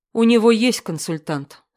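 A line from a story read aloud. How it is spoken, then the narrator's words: Plain. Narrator (Russian): сказала я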